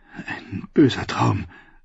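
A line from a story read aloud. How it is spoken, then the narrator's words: Weak voice. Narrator (German): sagte schwach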